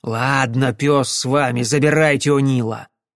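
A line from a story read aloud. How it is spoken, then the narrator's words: Angry curt retort. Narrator (Russian): сердито отрезал О'Келли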